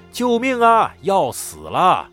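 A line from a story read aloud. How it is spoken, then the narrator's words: Shouting. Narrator (Chinese): 你的屁股就会大喊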